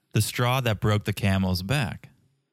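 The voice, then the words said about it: Speaks slowly and deliberately. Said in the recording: “say it slowly”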